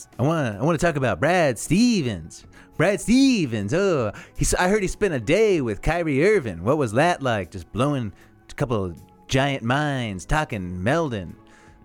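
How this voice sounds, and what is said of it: Imitates a famous singer's voice. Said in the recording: “do a Bob Dylan impression”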